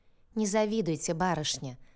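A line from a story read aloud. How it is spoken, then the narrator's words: Mocking man. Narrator (Russian): насмешливо ответил какой-то мужчина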